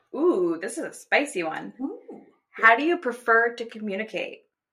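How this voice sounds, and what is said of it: Asks in a weird voice. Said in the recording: “I don't know why I asked it in that with weird voice.”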